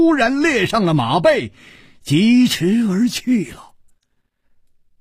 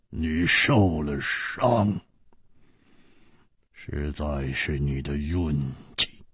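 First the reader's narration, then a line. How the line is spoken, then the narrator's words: Cold, after long silence. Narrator (Chinese): 薛衣人沉默了很久，然后冷冷地说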